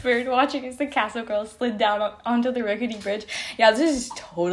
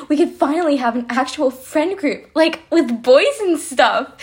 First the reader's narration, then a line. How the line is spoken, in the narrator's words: Sarah exclaimed